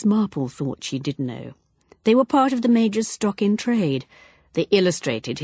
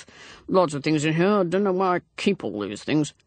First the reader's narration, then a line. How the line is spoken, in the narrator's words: Major Palgrave, murmuring to himself